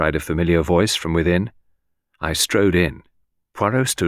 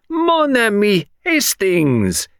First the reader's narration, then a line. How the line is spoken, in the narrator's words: cried